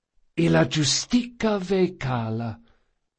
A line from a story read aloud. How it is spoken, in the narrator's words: Locke whispered